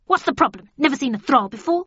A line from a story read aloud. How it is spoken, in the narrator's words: the creature said in a harsh tone